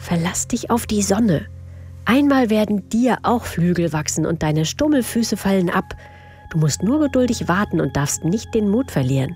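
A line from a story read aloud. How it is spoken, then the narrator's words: Whispered. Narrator (German): flüsterte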